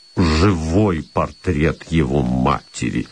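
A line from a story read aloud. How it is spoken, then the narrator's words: General muttering. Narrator (Russian): пробормотал генерал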